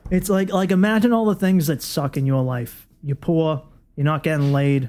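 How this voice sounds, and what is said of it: Deep Boston accent. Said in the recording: “yours is obviously deep, salty Boston”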